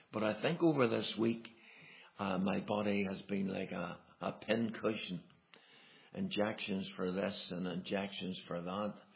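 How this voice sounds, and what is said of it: Hoarse voice. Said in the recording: “my voice is a bit hoarse. That's not usually me having a hoarse voice”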